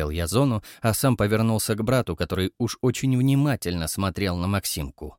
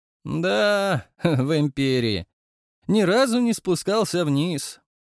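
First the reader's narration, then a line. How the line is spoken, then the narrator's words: Mocking drawl. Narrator (Russian): протянул Люций насмешливо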